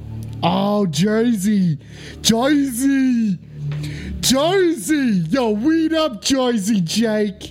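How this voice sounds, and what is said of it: Put-on New Jersey accent. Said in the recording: “Is that how you talk in a Jersey accent? Okay? Is that how we talk in Jersey accents?”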